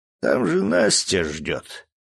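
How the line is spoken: Sleepy voice. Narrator (Russian): сонливым голосом добавил

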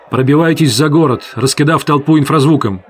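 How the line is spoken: Commander's shout. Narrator (Russian): крикнул командир

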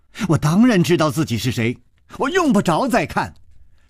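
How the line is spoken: Angry young girl. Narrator (Chinese): 这个少女怒道

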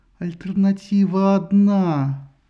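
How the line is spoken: Stony voice, goddess. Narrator (Russian): каменным голосом ответила богиня

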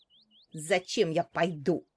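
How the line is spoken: Rude, harsh. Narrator (Russian): грубо ответила мачеха

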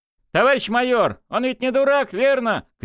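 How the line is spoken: Shout. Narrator (Russian): крикнул Матвей

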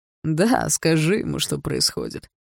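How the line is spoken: Laughing. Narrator (Russian): рассмеялся Барс

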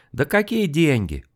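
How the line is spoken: Dismissive, laughing. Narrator (Russian): пренебрежительно отмахнулся мужчина и засмеялся

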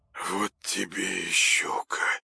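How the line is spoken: Dazed mumble, trembling lips. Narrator (Russian): пробормотал он прыгающими губами, едва ли сознавая, что говорит

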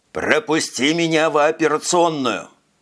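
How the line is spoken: Roaring. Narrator (Russian): проревел Пацак

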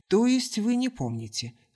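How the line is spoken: Dry question. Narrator (Russian): сухо уточнил блеклый

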